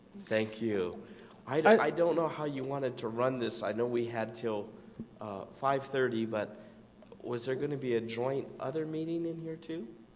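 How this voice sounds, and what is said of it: Hoarse, strained voice. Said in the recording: “I'm sorry you were having your laryngitis issue”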